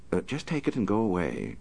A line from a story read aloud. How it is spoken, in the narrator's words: said calmly